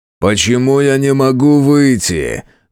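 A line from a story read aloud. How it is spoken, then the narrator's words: Menacing. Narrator (Russian): грозно произнес Грант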